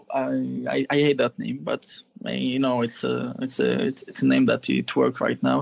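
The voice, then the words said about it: French accent. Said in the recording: “the French accent”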